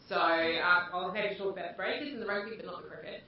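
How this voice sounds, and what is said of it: New Zealand accent. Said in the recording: “you might know from my accent, or might not, that I was born in New Zealand”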